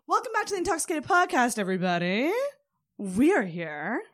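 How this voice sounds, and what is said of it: Game show announcer voice. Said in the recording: “I don't know why I'm talking like a game show announcer.”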